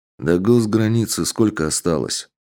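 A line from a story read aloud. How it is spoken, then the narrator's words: Dry, curt question. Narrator (Russian): сухо поинтересовался подполковник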